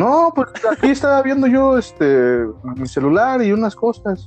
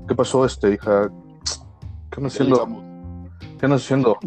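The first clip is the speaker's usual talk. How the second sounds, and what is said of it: Imitates a man's voice. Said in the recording (Spanish): “escucho una voz de hombre”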